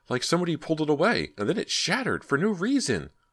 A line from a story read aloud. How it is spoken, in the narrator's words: Brandt gasped